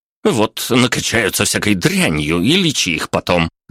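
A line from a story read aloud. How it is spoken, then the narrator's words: Angry mumble. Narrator (Russian): злобно пробубнила она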